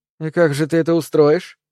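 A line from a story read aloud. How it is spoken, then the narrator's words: Snide, sly. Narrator (Russian): ехидно сказала Эба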